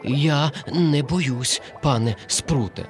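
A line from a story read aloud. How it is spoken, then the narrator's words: Trembling, frightened voice. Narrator (Ukrainian): тремтячим голосом мовив коник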